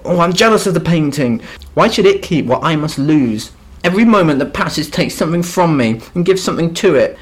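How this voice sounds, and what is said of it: Snotty rich boy accent. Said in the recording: “your snotty little rich boy accent. That was pretty good. ... That's just me. ... That's how you talk. ... That's my natural”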